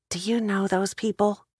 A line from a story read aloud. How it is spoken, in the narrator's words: Kate leaned to the left and whispered